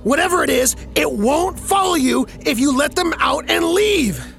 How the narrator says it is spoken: I shouted

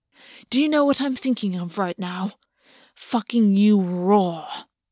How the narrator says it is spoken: August growled

